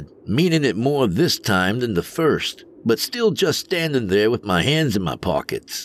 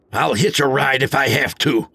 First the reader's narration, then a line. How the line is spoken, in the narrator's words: I barked